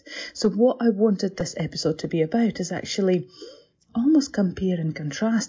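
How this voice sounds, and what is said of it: Scottish-sounding accent. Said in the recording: “I know my accent might fool you, but I'm not Scottish.”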